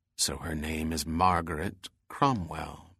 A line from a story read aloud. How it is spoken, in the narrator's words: Bell said quietly